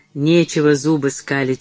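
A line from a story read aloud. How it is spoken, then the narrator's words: Angry grumble. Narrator (Russian): сердито проворчал Митчелл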